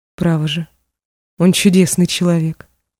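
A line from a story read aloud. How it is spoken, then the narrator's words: Muttering. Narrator (Russian): бормотала она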